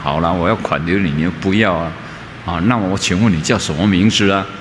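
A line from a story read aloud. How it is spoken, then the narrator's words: Plain. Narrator (Chinese): 他就问了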